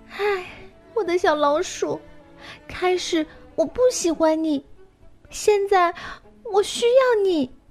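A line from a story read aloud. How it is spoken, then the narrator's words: Crying, sorrowful. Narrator (Chinese): 开始哭泣，并忧伤地说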